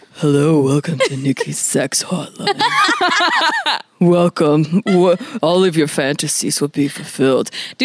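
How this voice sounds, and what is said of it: Put-on deep sultry voice. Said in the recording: “Do your ... deep voice.”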